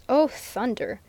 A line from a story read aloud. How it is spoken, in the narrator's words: growled Stanton